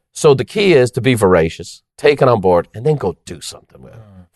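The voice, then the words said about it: Irish accent. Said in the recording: “you got an accent? I go, from Ireland.”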